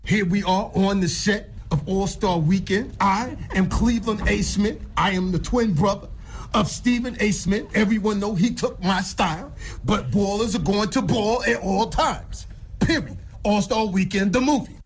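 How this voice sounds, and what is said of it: Impression of Stephen A. Smith. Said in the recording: “Good impression? ... Great impression. ... Jamie Foxx definitely is a great impersonator”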